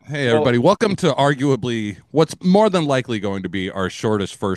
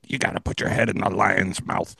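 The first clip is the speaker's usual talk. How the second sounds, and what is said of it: Imitates another person's voice. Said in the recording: “my Judd Hirsch impression”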